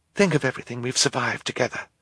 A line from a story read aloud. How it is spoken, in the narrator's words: Violet whispered